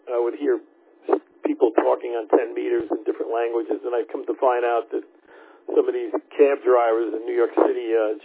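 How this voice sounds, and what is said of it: Long Island New York accent. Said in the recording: “my accent, Long Island”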